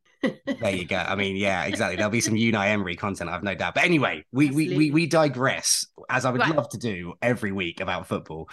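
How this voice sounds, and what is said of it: Manchester English accent. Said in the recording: “I'm sure you can hear this just from my accent ... it's fairly obvious I'm from Manchester”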